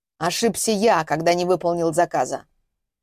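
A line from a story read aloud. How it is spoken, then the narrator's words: Grumbling. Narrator (Russian): проворчал он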